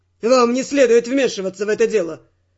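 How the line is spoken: Rather rude declaration. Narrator (Russian): Довольно грубо заявил телохранитель

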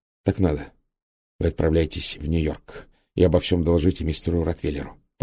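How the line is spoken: Whispered in English. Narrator (Russian): по-английски прошептал Гальтон

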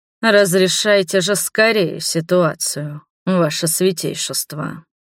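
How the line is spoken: Low dangerous dragon's demand. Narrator (Russian): низким, опасным голосом потребовал дракон

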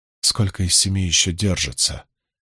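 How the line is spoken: Quiet, as if to herself. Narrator (Russian): тихо спросила Мирелли, словно разговаривая сама с собой

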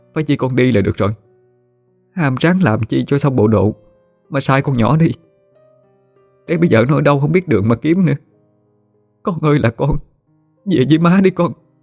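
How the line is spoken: Angry weeping. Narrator (Vietnamese): Chị Tám cứ ngồi giận mình mà khóc lóc

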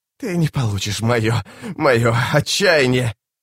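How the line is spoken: Hissing. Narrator (Russian): Капитан прошипела

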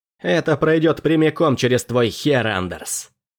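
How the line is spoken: Growl from above. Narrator (Russian): прорычал сверху Фрэнсис

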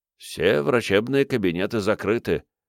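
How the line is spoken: Old man muttering. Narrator (Russian): пробормотал седой мужчина

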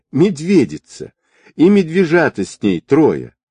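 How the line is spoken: Laughing woman. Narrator (Russian): Она, смеясь

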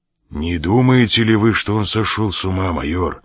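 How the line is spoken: Trembling voice. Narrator (Russian): спросил Мигель дрожащим голосом

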